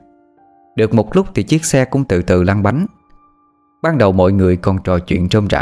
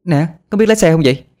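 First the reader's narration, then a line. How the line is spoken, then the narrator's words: Pained screaming. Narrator (Vietnamese): Á Lan đau đớn la hét lên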